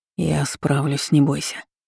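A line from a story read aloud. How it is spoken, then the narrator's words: Hoarse, close. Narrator (Russian): хрипло сказал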